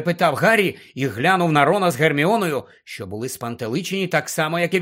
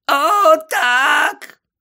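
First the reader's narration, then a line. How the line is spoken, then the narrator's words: Groan. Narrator (Ukrainian): Крічер застогнав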